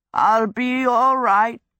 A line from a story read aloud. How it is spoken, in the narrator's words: he croaked